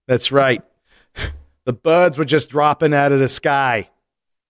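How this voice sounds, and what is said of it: Attempted Boston accent. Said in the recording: “That's my Boston accent. I actually even looked it up, and that's as good as it got.”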